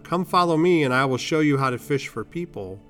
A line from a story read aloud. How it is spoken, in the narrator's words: Jesus called out to them